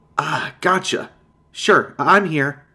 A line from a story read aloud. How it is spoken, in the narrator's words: He laughed, content to see me alarmed by his jump scare